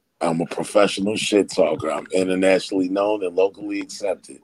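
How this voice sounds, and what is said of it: Northern Philadelphia accent. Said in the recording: “I can hear that northern accent. ... I'm from Philly.”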